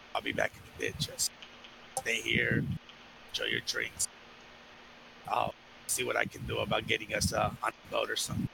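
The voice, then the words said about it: Very low, quiet voice. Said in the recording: “in a very low voice”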